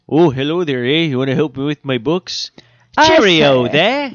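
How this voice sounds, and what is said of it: Mixed Canadian-British put-on accent. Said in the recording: “Canadian or British. How do you get those two confused? Canadian and British ... I just went to Swedish.”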